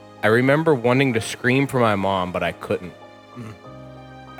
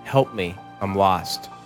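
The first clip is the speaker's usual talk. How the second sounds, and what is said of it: Faint whisper. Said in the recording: “whispers in a faint voice”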